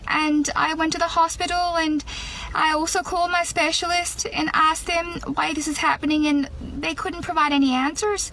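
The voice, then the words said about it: Irish accent. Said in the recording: “she's got a very good Irish accent. It's a hard one to do.”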